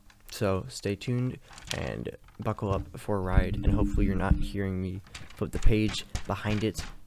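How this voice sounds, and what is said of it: Tired voice, slightly sore throat. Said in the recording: “I am tired, my throat hurts a little bit”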